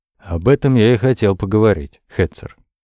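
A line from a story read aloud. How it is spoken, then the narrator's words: Calm. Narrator (Russian): спокойно начал Андрей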